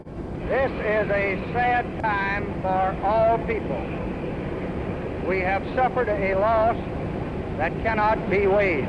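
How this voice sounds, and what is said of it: Strong Texas accent. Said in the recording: “a strong Texas accent bit into the night air”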